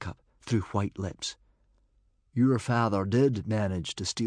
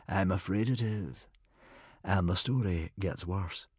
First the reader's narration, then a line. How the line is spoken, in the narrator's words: replied Humongous, sighing